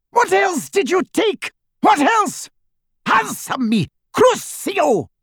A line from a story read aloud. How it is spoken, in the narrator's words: screams echoed off the walls upstairs